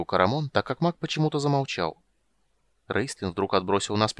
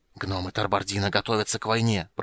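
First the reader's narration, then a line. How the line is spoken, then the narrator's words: Hiss. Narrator (Russian): прошипел Рейстлин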